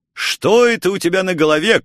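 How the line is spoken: Shouting. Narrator (Russian): крикнул я

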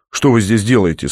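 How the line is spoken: Cold question. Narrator (Russian): спросил Михаил холодно

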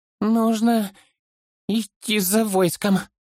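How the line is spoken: Strained, forced out. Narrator (Russian): выдавил из себя хоббит

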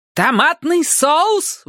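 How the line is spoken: Screaming mother. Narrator (Russian): вопила мама

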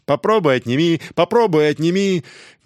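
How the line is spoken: Laughing shouts while running. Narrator (Russian): смеясь и выкрикивая на бегу

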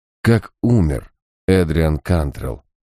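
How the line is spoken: Plain. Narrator (Russian): спросил я

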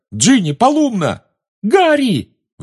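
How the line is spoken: Shriek. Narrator (Russian): взвизгнула Гермиона

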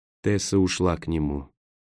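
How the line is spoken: Soft whisper. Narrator (Russian): тихо прошептал Роэн

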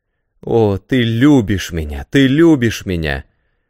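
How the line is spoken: Exclaiming. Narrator (Russian): воскликнула Полина

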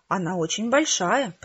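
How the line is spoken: Whisper. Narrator (Russian): прошептала я

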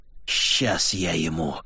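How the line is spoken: Hiss. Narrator (Russian): прошипела она

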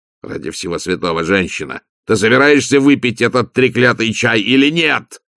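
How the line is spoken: Roar. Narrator (Russian): взревел граф

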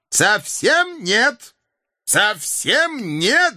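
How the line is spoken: Shouting through loophole. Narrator (Russian): закричал Кап в отверстие другой бойницы

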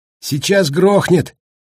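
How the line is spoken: Delighted shout. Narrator (Russian): в восторге прокричал Паркер

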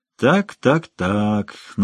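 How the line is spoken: Mocking. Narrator (Russian): насмешливо сказал Лумис

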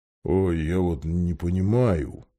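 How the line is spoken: Grumble. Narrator (Russian): проворчал он

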